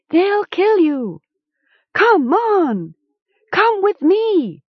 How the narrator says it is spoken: Gom shouted

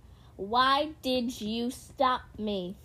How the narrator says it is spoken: She spat

